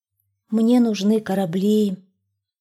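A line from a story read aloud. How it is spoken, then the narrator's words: Sighing. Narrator (Russian): Вздохнул ёжик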